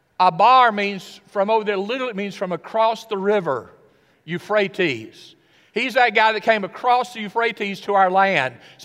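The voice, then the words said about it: Tennessee accent. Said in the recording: “My Tennessee accent gives me, well, you're not from here.”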